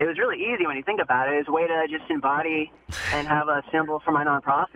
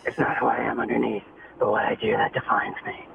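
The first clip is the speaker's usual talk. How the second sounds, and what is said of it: Batman voice impression. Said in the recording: “in my Batman voice.”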